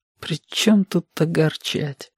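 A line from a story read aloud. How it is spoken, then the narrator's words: Barely audible. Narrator (Russian): проговорил он еле слышно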